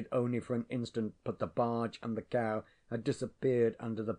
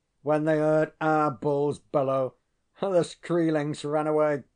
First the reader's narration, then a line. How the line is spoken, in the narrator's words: laughing very loudly said